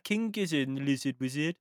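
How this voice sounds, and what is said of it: Put-on Birmingham Brummy accent. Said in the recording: “Sounding more like some Birmingham. ... Sounded more Brummy there.”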